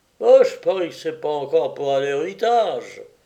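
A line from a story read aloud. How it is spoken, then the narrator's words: Grumbling. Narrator (French): grommela Jean Travers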